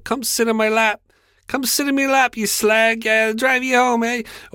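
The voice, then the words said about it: Put-on accent, done poorly. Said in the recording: “I'm fucking terrible at accents.”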